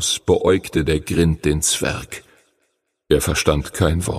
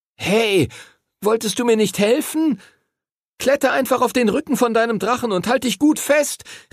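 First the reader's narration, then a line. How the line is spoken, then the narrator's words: Calling out. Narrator (German): rief Henry ihm zu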